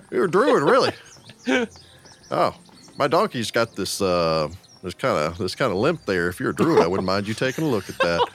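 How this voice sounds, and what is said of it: Put-on character accent. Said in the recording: “I love this accent. ... It's going to get infectious”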